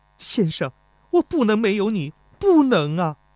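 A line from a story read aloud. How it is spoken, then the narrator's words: Weeping. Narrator (Chinese): 泪水从钟离春眼中潸然而下，哭着说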